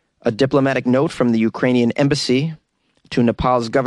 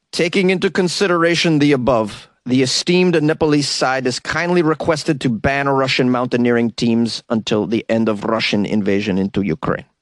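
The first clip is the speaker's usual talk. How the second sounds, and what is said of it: Put-on Ukrainian accent, not very good. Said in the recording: “That was my attempt at a Ukrainian accent. ... I don't think it was very good.”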